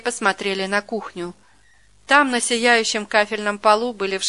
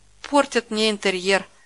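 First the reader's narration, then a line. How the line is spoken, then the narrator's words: Sigh. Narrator (Russian): вздохнула Стрельникова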